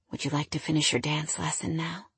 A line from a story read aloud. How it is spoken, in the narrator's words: He whispered